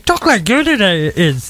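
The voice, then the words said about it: Yoda impression. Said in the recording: “my impression of Yoda”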